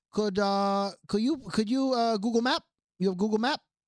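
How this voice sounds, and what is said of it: Put-on accent imitating another person. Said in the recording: “I'm only doing the accent because that's how she spoke ... don't ever come down on me for doing an accent again ... That's exactly how she sounded.”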